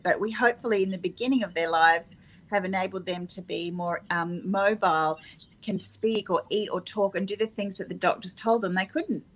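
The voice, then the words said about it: Australian accent. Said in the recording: “your Australian accent.”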